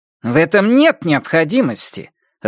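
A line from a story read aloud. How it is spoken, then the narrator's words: Irritated. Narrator (Russian): раздраженно сказала Пат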